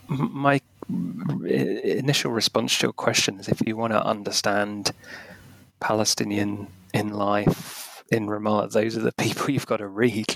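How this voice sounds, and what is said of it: Tired, strained voice. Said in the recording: “my voice is running out of steam”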